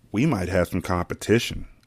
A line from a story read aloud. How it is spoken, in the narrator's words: Anissa whispered in my ear